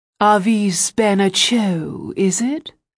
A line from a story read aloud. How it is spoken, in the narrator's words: in an amazing grand voice